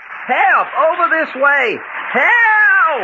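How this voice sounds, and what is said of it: Yelling loudly for help. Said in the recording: “Quick, yell. Yell your heads off. ... Keep yelling!”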